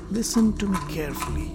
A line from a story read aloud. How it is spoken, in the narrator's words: he almost whispered into Duryodhana's ears